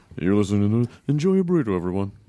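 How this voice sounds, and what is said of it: Weird put-on voice. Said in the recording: “That's a weird voice. You never used that before.”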